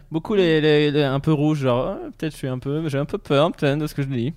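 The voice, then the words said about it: Affected fashion-guy accent. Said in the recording (French): “Avec visiblement un accent de mec qui fait de la mode.”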